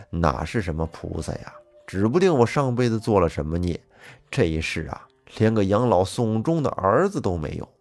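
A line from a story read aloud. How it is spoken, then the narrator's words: Bitter laugh. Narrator (Chinese): 黄老头……苦笑一声，说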